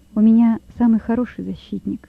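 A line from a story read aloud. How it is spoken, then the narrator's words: Calm. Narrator (Russian): спокойно сказал Лёва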